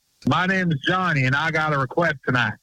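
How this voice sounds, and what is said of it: Put-on Western country twang. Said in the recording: “I was doing my Western thing ... that country twang”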